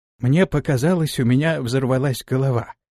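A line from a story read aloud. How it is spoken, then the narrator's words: Quiet. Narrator (Russian): тихо проговорил Аристофан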